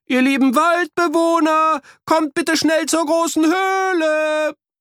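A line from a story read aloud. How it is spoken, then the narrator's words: Calling as loud as possible. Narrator (German): riefen, so laut sie konnten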